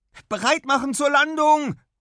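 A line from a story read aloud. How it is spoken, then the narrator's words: Called out. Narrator (German): ruft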